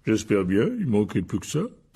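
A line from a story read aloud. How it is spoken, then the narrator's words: Grumbling. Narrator (French): grogna Hagrid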